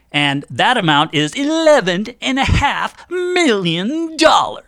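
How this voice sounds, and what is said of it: Dr. Evil impression. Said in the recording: “that was my impression of Dr. Evil”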